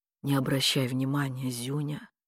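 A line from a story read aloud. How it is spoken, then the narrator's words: Man muttering. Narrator (Russian): пробормотал дядька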